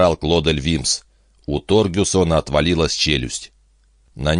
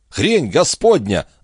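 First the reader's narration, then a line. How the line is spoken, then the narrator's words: Yelling. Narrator (Russian): заорал Вимс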